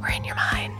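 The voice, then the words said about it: Whispering. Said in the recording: “I don't know why I keep whispering.”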